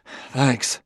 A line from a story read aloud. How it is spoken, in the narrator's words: gasped Bailey